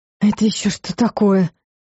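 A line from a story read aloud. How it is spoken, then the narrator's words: Whisper. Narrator (Russian): прошептала Элла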